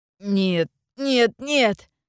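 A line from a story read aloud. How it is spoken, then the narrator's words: Sobbing. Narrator (Russian): Он зарыдал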